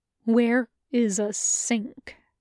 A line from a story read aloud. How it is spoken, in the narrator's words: Reaper asks the ghost through gritted teeth